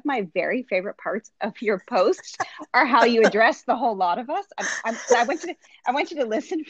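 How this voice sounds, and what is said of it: Usual voice. Nothing is said of it.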